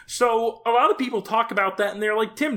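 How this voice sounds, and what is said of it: Kermit the Frog character voice. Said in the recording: “doing a Kermit the Frog impression ... That is spot on ... you started talking in it ... it's Kermit”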